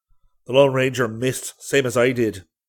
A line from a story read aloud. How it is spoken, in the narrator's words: he snapped